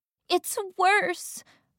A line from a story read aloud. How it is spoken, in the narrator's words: Raquel wailed